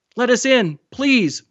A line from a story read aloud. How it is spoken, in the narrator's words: Mahmoud begged